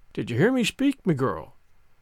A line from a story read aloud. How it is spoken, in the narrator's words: he said, in that quiet tone which no one inside the inn dared to disobey